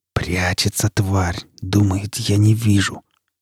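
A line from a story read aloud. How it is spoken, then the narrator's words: Predatory whisper. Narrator (Russian): хищным шепотом произнес сталкер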